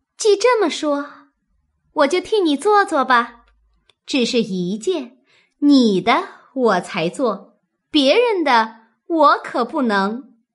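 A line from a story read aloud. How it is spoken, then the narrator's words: Laughing. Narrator (Chinese): 史湘云……因笑道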